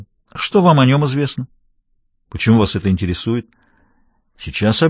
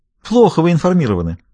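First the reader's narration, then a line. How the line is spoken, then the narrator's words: Laughing. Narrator (Russian): рассмеялся Даффи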